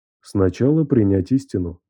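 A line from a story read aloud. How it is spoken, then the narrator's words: Calm, confident answer. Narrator (Russian): ответил Таисий спокойно и уверенно, словно давно ждал этого вопроса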